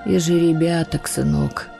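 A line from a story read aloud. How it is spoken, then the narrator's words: Sigh. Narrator (Russian): вздохнул Кирилл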